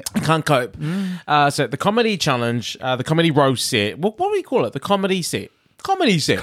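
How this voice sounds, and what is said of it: Mixed Kiwi accent. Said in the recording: “My accent's all over the place. On to the, I hear Liverpool, I'm in Britain, I'm watching American, and I'm Kiwi.”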